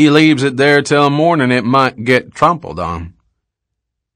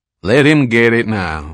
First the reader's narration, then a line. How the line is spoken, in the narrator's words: Leggett said in his equable drawl